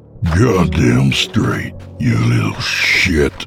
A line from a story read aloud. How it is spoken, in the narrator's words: he growled, his voice returning to the previous gravelly voice